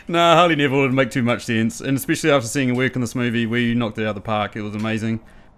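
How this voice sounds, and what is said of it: New Zealand accent. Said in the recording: “I've got a New Zealand accent.”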